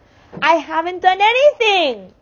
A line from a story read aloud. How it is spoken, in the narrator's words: Calvin shouted